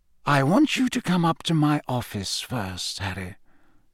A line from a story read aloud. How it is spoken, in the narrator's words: said quietly